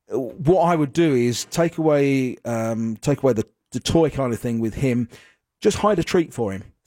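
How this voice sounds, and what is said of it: East London English accent. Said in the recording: “Most people say Australian, actually. ... It's a London accent. ... I'm from the east of London”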